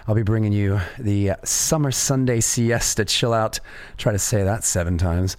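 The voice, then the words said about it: Slightly raspy voice. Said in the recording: “As you can hear, I've got a little bit of a raspy voice.”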